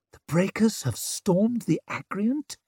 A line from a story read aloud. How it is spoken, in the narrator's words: She whispered